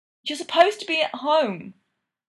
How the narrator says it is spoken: Sid yells at him

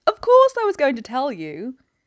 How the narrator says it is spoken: Miss Phryne exclaimed

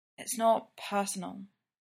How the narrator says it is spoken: Clint whispers up at the ceiling

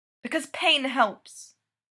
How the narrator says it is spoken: she says sharply

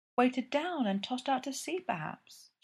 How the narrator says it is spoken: she murmured

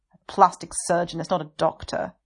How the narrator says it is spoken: Wei Ying sneers

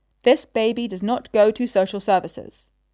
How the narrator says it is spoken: she said firmly

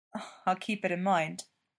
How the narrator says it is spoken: Jeff said dryly

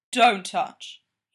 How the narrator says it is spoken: he growls

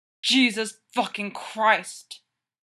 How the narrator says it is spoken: Derek growls into the skin of Styles' neck

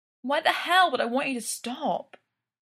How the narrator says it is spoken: Styles whines

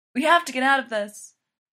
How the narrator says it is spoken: Selena yells

